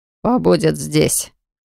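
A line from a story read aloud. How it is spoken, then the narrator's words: Snorted. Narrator (Russian): хмыкнул принц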